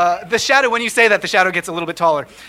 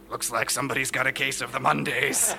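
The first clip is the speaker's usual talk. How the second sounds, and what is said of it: Creepy character voice. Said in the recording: “creepy voice”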